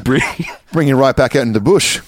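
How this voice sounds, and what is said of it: Put-on Australian accent. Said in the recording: “my Australian accent. I hope I'm doing it at least a little bit of justice.”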